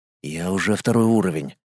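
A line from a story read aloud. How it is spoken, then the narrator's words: Whispered reply. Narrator (Russian): таким же шепотом ответил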